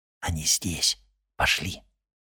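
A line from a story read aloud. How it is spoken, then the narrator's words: Whispered. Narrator (Russian): прошептал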